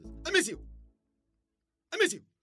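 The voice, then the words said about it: Sharp sneeze-like exclamations. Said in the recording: “I sound like a sneeze.”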